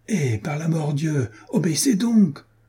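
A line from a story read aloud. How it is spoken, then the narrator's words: Shouted. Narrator (French): cria à son tour Jean de Werth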